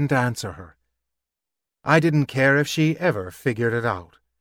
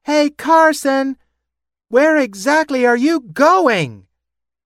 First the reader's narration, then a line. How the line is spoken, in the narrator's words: Elsie's voice screeching after me